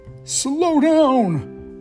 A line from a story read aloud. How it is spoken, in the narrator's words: bellowed the knight, bumping around